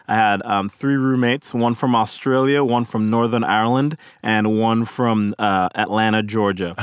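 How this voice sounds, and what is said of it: Faint Caribbean accent. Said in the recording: “you have a little bit of an accent... my Caribbean accent... slowly but surely, my accent is fading... it still sounds cool”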